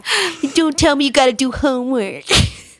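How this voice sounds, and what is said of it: Imitates another person's voice. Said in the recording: “That's my impersonation.”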